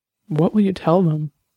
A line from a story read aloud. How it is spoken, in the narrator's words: Ivy asked, her voice trembling slightly